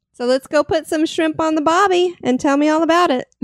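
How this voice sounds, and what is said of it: Attempted Australian accent turning Southern. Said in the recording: “you switched Barbie into a Southern accent there. You went from Australian to Southern.”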